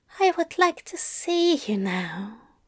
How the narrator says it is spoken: Aziraphale sighed

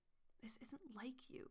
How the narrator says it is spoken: he murmurs

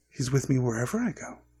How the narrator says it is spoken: said Quirrell quietly

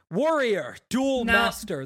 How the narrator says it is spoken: the king shouted

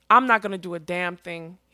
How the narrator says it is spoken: he said through his teeth

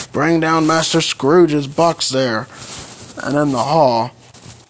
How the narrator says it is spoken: A terrible voice cried

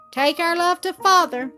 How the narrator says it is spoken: cried Bobby, and the others too shouted

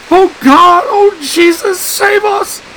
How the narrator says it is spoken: Anne shrieked

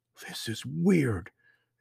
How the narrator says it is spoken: Emily whispered

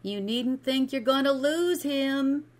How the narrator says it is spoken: she cried

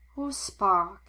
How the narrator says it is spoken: she sighed, clearly in the mood to talk about this

